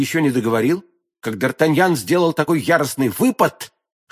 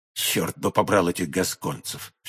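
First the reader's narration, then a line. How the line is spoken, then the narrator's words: Mutter. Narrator (Russian): все же пробормотал он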